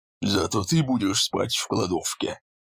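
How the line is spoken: Grumbling leader. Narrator (Russian): проворчал главарь

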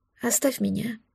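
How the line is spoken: Quiet. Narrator (Russian): сказал он тихо

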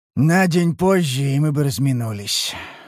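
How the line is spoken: Sigh, then serious admission. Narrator (Russian): вздохнул он, посерьезнел и признал

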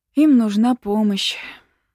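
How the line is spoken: Sighing. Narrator (Russian): вздохнула я

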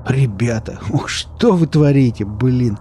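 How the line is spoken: Groaning, squashed under weight. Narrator (Russian): простонал Велес, придавленный к земле весом 2 милых, немного мутированных собачек

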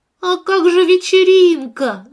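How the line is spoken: Shouted. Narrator (Russian): закричала Лия

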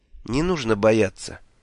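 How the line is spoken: Calm, detached. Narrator (Russian): все так же спокойно и отстраненно сказал я

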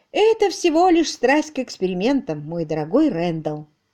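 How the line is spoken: Plain. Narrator (Russian): ответила мисс Силвер

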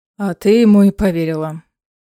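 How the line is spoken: Reproachful sigh. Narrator (Russian): укоризненно выдохнул Ларкан

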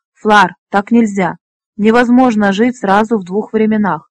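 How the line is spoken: Flustered exclamation. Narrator (Russian): В смятении воскликнул Фнор

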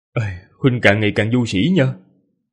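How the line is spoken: Sighing. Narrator (Vietnamese): Ninh Khuyết thở dài nói

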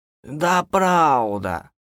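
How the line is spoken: Offended voice. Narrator (Russian): обиженным голосом повторила она

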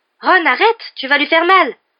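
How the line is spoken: Exclaiming. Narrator (French): s'exclama Hermione

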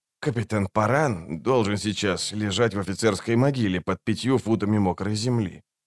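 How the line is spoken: Quiet. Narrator (Russian): тихо проговорил он

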